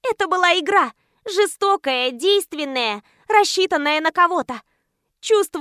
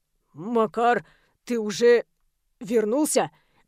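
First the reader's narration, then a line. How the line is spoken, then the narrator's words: Tense question. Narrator (Russian): Напряженным тоном вопрошает Данил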